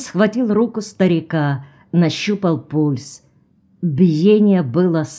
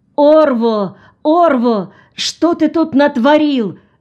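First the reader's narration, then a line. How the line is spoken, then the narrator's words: Shouting. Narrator (Russian): закричал Джон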